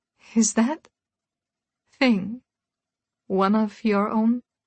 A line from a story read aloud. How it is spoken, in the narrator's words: She asked, her tone halting